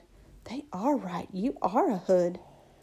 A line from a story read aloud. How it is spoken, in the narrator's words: This girl was right beside me and kind of gasped and said